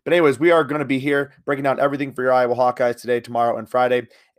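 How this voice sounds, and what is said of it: Slightly raspy voice. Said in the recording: “My voice is also a little bit raspy.”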